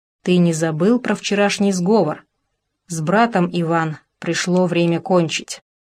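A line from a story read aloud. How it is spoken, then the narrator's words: Quiet. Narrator (Russian): сказал негромко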